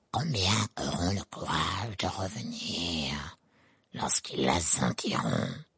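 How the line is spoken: Murmured. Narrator (French): murmura-t-il

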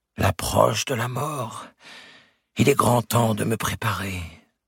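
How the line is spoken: Simple, disillusioned murmur. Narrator (French): il répondait simplement, accompagnant son murmure d'un geste désabusé

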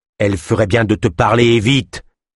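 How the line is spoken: Growled. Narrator (French): gronda Dronka

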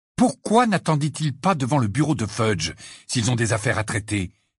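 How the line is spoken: Furious exclamation. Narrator (French): s'exclama Harry d'un ton furieux

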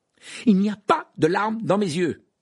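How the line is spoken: Loud protest. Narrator (French): protesta Harry d'une voix forte

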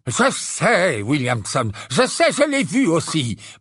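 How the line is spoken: Breathless stammering. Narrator (French): balbutia Fudge, qui portait un pyjama sous sa cape à rayures et haletait comme s'il venait de courir plusieurs kilomètres

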